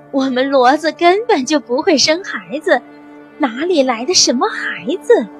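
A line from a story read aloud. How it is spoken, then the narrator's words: Laughing heartily. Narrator (Chinese): 罗大妈哈哈大笑说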